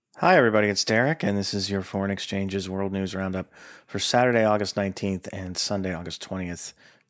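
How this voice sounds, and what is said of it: Hoarse, rough-sounding voice. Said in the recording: “as you can probably tell, I'm still a little hoarse. ... if it's not the most pleasant sounding experience you've ever had”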